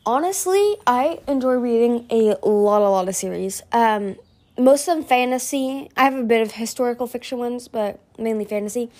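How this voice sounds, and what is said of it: American accent. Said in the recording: “Probably by my accent, you guys can probably tell I'm from America, but more specifically, I'm from California.”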